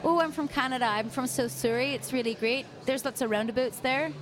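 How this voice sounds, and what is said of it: Attempted Canadian accent, Australian showing through. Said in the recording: “I can do a Canadian accent, I think. ... You're close. Yeah, you're getting there. ... but you can't, like, completely strip out the Sydney dialect, though.”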